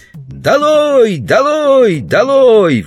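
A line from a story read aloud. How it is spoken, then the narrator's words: Children yelling. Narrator (Russian): вопили дети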